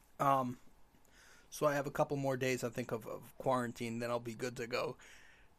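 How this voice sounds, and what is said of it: Slightly sick-sounding voice. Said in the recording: “I caught the um, the Omicron the Omicron cold... You could probably hear it in my voice... my voice isn't at its best right now”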